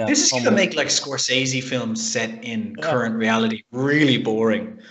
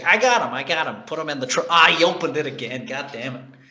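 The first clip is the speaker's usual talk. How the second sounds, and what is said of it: Poor Joe Pesci impression. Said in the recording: “That was a terrible Joe Pesci impression.”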